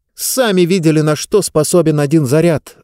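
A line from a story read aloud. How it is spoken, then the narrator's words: Snapping. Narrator (Russian): огрызнулась Диба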